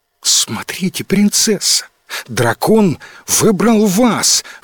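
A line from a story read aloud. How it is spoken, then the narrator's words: Amazed exclamation. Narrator (Russian): в изумлении воскликнул Луи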